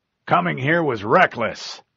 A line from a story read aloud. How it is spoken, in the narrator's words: he said, his voice harsh